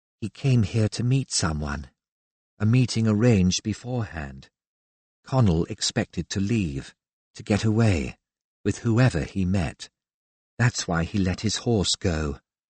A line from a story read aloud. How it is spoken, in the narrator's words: Antonia murmured